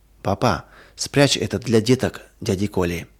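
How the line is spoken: Whispered. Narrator (Russian): Зоя прошептала

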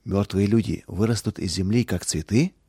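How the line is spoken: Quiet question. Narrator (Russian): Роланд тихо спросил

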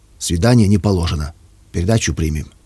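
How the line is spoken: Stern, curt. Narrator (Russian): строго сказал, словно отрезал

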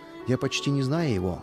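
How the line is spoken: Plain. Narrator (Russian): ответил я

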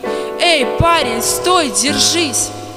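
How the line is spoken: Loud shout. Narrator (Russian): громко крикнул

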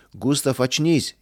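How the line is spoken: Frightened shouting, group. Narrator (Russian): испуганно закричали вдогонку товарищи

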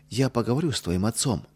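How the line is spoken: Gentle. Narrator (Russian): мягко сказала Ядвига

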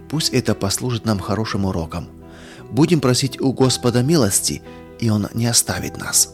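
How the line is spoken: Quiet. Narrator (Russian): Сергей тихо сказал

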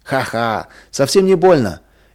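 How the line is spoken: Cheerful laughter. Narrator (Russian): весело засмеялся Вадим

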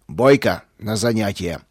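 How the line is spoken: Growled. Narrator (Russian): рыкнул он

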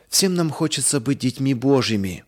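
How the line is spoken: Plain. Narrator (Russian): сказал папа

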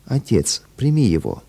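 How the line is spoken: Affectionate whisper. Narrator (Russian): ласкаясь к нему, шепнула

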